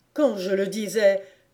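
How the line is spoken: Excited sick man's cry. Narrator (French): s'écria le malade avec exaltation

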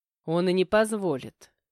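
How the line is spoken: Growled through clenched teeth. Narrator (Russian): перебил Матвей и, стиснув зубы, прорычал

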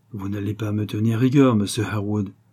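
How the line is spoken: Frank male tone. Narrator (French): dit-il d'un ton de franchise

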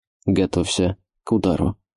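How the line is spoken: Barely audible. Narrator (Russian): едва слышно произнес Эфит

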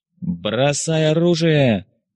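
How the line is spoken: Menacing booming shout. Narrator (Russian): грозно прокричали небеса

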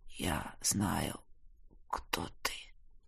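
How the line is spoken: Hoarse rasp. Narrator (Russian): прохрипел целитель

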